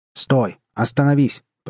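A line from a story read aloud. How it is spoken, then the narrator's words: Shouted after someone. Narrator (Russian): прокричал ему вслед капитан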